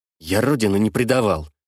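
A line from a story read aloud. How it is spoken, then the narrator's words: Muttered. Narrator (Russian): буркнул он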